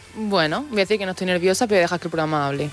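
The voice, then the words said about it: Almería Spanish accent. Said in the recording (Spanish): “te ha salido tu acento de Almería”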